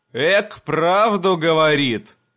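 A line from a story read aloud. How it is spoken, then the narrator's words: Tired. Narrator (Russian): устало пожал плечами Дейрон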